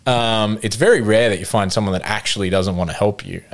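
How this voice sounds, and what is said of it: Australian accent. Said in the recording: “have an Australian accent”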